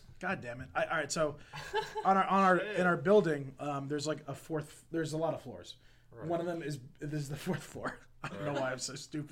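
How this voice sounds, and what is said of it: Slightly raspy, rough voice. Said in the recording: “my voice—you could probably know it's not as sultry and nice and silky as usual ... It's a little raspy ... it's a little raspy”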